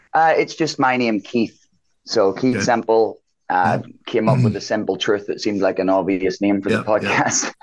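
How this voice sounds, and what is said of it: Northern Irish accent. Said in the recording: “I love your accent... I'm from a little town called Larne in Northern Ireland”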